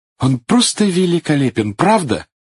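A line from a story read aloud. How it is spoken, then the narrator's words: Exclaiming. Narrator (Russian): воскликнула она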